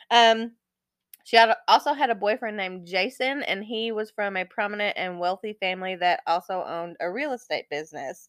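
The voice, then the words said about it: Congested, unsteady voice. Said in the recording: “My sinuses are driving me crazy today, so my voice is probably going to be all over the place.”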